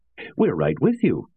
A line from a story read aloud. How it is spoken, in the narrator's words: replied 3 cheerfully